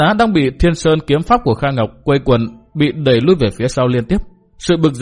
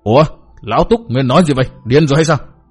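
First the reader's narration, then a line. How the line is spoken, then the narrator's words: Angry. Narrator (Vietnamese): bất giác y giận dữ nói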